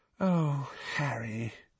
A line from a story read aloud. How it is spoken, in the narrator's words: she said sadly